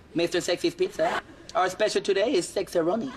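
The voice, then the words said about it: Funny put-on accent. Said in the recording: “I don't know where he came up with that accent. That's pretty funny”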